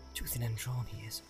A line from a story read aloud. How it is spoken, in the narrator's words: muttered